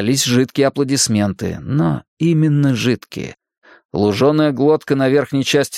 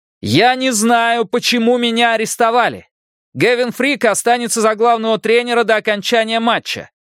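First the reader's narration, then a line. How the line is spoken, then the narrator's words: Shouted. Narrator (Russian): крикнул он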